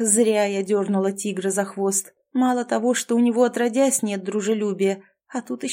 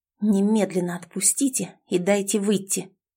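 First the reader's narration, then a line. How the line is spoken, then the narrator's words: Indignant hiss. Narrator (Russian): прошипела я с чувством накипевшего негодования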